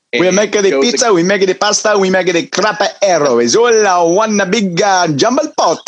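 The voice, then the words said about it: Poor put-on Italian accent. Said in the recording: “a poor attempt at an Italian accent”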